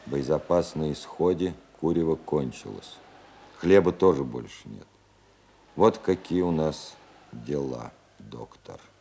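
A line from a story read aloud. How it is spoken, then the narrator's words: Quiet and gloomy. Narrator (Russian): Цветков сказал ему в этот день негромко и угрюмо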